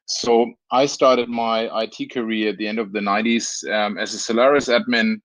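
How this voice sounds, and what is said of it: Slight Franconian German accent. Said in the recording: “I have a little bit of a Franconian accent, which is related to Nuremberg”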